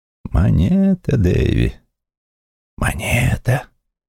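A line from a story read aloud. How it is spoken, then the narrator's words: Whisper. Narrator (Russian): шептал судья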